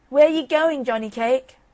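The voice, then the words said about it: Sharp fox character voice. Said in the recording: “The fox called out in a sharp voice, but without getting up”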